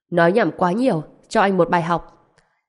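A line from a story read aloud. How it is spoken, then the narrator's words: Cold. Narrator (Vietnamese): Trần Bình thì chỉ lạnh lùng nói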